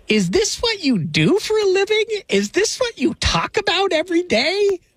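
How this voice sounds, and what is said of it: Imitates his mother's voice. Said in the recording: “my best mom impersonation.”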